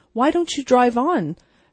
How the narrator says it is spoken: said Miss Lantry impatiently

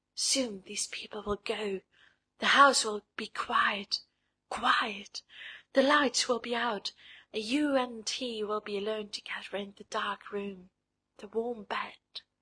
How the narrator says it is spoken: this something blind and smiling whispered to her

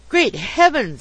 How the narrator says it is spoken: exclaimed my acquaintance

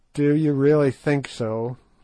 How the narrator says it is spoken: said Good gloomily

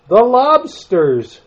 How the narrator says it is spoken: shouted the Gryphon

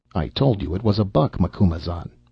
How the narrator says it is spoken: said Magepa

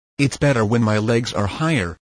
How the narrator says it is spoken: he said

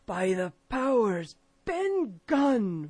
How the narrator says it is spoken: roared Silver

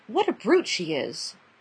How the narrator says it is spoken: Roby turned back to whisper to the others

